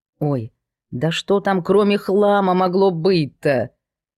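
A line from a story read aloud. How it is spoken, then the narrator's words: Displeased maid's reply. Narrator (Russian): Недовольным голосом отозвалась горничная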